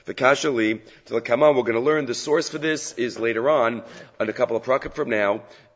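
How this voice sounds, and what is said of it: Slightly scratchy voice. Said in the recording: “my voice is a little scratchy”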